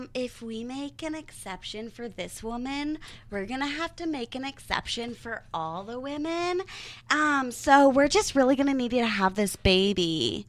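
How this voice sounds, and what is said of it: Imitates a hospital manager's voice. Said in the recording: “this is my impression of the manager of the hospital”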